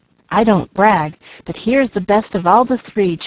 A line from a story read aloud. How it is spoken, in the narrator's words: chuckled Jack, trying to look brave and gay